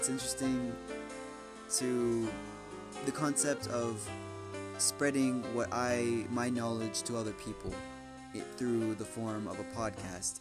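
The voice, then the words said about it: Sore, sick-sounding voice. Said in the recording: “my voice is kind of hurting, and I'm kind of sick, so I'm sorry about that, guys, if I sound sick.”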